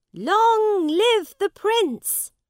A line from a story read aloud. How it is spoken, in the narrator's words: the people shout